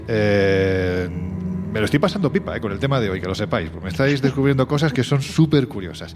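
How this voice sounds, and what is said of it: Andalusian Spanish accent. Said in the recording (Spanish): “yo que soy andaluz ... Mira, me sale ya hasta mi acento.”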